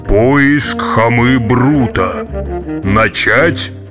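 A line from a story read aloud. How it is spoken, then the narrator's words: Deep underground voice. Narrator (Russian): Вий ... произнес густым подземным голосом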